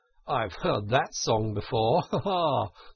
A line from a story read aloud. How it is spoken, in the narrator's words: said Toad, laughing